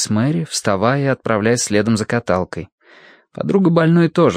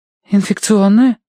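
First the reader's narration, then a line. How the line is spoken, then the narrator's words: Frightened question. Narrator (Russian): испуганно переспросила она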